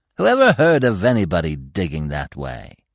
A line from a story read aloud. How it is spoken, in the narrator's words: The other mole drew down one corner of his mouth in a scornful sneer